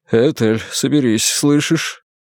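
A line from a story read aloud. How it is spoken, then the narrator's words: Gentle affectionate speech. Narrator (Russian): Доктор Армстронг заговорил с нею ласково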